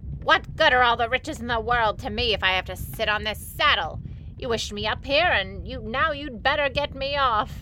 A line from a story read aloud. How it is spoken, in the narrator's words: she yelled at him